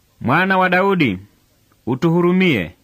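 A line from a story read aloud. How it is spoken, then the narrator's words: Two blind men shouting. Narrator (Swahili): vipofu wawili walimfuata wakipiga kelele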